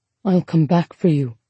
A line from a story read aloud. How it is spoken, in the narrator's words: he whispered